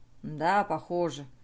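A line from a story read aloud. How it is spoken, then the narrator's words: Grumbling. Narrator (Russian): проворчал он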